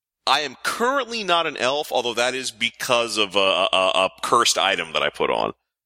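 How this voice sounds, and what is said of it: Smooth, rich radio-style voice. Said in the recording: “It is a buttery smooth radio voice.”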